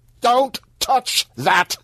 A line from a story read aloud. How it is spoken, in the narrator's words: Vampire shouted